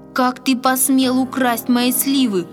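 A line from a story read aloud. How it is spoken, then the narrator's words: Shouting, trembling with rage. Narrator (Russian): дрожа от гнева, закричал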